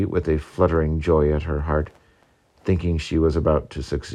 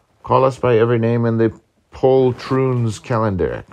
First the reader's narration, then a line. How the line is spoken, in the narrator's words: cried Murray